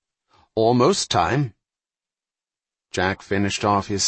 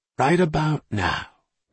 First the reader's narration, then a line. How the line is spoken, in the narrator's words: Murray whispered